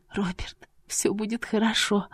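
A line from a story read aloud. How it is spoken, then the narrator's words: Whisper into hair. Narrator (Russian): прошептала в его макушку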